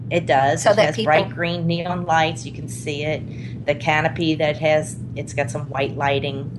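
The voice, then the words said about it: New Orleans accent. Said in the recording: “We're all from New Orleans. You can probably tell from my accent”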